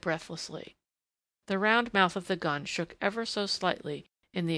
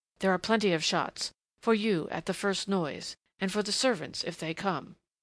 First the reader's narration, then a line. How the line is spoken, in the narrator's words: she went on in that fierce undertone, and then, passionately